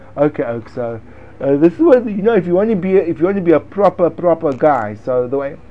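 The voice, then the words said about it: Silly put-on accent. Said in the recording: “It may help if I speak in a silly accent.”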